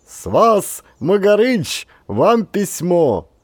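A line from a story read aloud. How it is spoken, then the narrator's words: Elated loud announcement. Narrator (Russian): Окрыленный, громко объявлял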